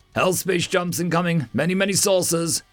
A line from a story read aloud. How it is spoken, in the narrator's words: her tactical command called out